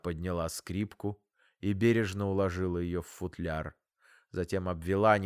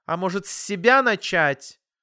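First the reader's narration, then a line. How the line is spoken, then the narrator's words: Irritated, curt. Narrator (Russian): Мама раздраженно бросила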